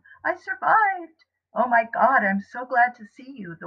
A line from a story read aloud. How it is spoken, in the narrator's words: the one closest to me exclaims, his eyes laughing